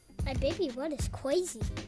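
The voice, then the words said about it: Child speaking in baby talk. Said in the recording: “in a baby voice ... he does baby talk sometimes”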